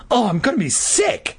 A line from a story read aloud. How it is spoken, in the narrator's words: Regina cried